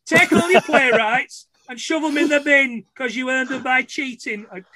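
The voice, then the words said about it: Poor imitation of a Yorkshire voice. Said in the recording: “my terrible Alan Bennett, the Yorkshire playwright impression, which is turning into my Brian Clough impression”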